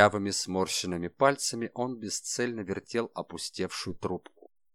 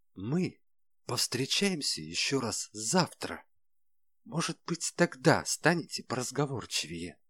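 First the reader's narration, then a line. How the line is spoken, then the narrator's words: Hiss. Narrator (Russian): прошипел он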